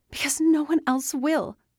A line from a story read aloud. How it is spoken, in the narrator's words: yelled, desperation blasting through her words